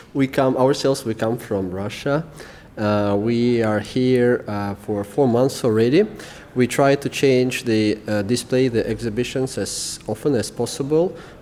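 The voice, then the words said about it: European accent. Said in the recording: “By the sounds of your accent, you sound like you're from somewhere in Europe.”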